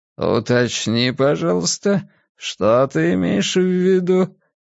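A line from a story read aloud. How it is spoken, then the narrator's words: Velvety voice. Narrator (Russian): бархатным голосом попросил он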